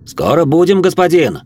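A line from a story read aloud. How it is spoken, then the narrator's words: Shouting from a distance. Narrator (Russian): крикнул Живьен с козлов кареты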